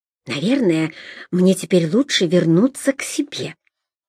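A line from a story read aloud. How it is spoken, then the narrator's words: Firm nurse-like tone, then whisper. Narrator (Russian): твердо, как медсестра, произнесла Урсула и шепнула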